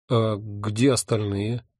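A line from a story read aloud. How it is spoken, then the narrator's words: Bewildered question. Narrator (Russian): растерянно спросил я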